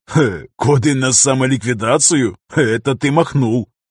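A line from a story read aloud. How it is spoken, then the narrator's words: Chuckling. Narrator (Russian): хохотнул Дайран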